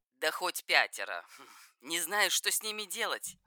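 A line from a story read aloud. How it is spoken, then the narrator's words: Scoffing, female. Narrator (Russian): хмыкнула она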